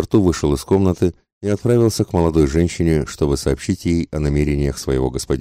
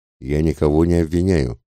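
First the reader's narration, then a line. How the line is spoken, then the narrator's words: Very calm. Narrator (Russian): самым спокойным тоном ответил мистер Фог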